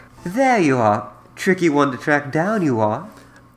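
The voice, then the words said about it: Tracer impression. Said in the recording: “you get to do your Tracer voice.”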